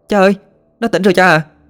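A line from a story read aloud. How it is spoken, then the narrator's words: Shouting. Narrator (Vietnamese): hét lên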